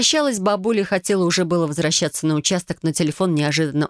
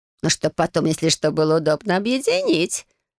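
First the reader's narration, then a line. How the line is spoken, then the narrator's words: Grandmother laughing. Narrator (Russian): засмеялась бабушка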